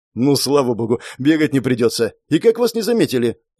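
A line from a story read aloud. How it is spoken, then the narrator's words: Rapid chatter. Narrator (Russian): протараторил дежурный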